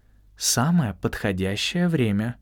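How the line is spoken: Calm repetition. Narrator (Russian): спокойно повторил Альфредо

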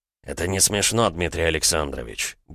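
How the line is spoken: Grumbling. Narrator (Russian): буркнул Кузовлев

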